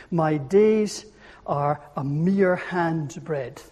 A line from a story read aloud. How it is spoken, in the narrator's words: said